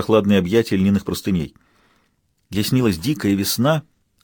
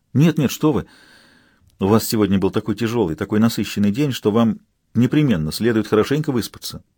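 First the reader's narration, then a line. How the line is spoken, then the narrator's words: Caring tone. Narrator (Russian): заботливым тоном порекомендовала Авсанна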